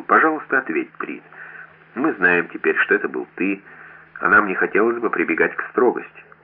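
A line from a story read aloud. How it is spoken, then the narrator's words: Gentle question. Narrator (Russian): вмешался Лостен и ласково спросил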